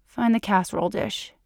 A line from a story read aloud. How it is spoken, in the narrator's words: murmurs